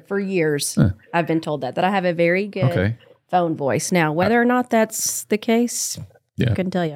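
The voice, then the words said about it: Rural country accent. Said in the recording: “I sound like a country bumpkin”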